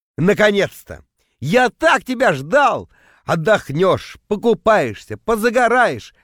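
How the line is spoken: Hypocritical shouting reply. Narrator (Russian): в ответ орал я, превращаясь в лицемерного монстра

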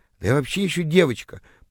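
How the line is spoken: Confused mumble. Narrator (Russian): пробормотала растерявшаяся тыква

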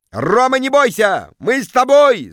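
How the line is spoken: Crowd yelling. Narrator (Russian): завопили в зале

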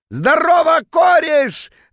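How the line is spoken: Drunken yell. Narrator (Russian): заорал он дурным пьяным голосом

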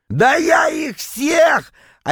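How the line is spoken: Yelling again. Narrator (Russian): опять заорал Витек

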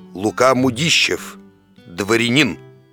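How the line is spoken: Hoarse drunken bass. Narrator (Russian): дородный, видный господин и прохрипел пропитым басом

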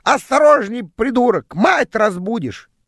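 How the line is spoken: Squawking parrot. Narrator (Russian): попугай в клетке проснулся и закричал

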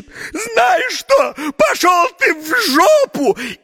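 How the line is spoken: Sudden flustered shout. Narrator (Russian): покраснела, побледнела, а потом как закричит

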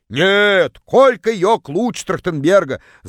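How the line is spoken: Distant yelling woman. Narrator (Russian): заорала одна из них из самого дальнего угла

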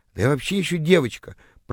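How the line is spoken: Confused mumble. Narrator (Russian): пробормотала растерявшаяся тыква

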